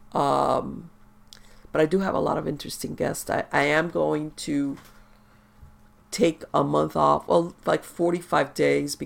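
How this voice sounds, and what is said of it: Congested, sick-sounding voice. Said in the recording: “I'm sorry for my voice. ... I'm sorry for the way I sound with this allergy that morphed into a head cold.”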